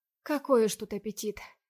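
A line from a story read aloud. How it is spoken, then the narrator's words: Sad wry chuckle. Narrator (Russian): Грустно усмехается жена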